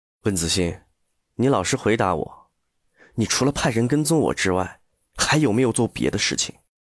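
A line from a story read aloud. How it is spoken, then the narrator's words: Low, grave question. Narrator (Chinese): 楚俊辰 沉声问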